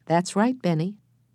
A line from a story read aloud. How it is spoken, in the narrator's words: Henry said kindly